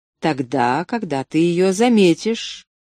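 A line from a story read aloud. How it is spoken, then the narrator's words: Plain. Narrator (Russian): ответил невидимый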